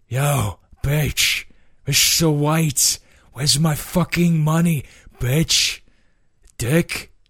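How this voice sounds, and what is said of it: Imitates Jesse Pinkman's voice. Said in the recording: “the Pinkman voice ... It's Jesse Pinkman from Breaking Bad”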